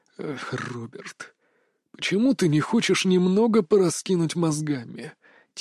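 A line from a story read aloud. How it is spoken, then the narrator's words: Quiet mocking question. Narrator (Russian): тихо спросил Марк с присущей ему насмешкой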